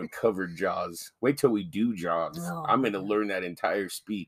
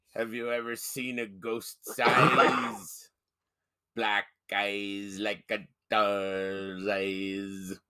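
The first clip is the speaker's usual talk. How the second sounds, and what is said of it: Impersonation of a movie character. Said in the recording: “Any chance I get to do that impersonation, I will.”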